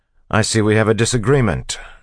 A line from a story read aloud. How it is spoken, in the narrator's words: Kelsier said loudly